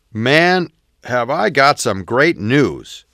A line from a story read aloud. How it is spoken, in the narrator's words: C exclaimed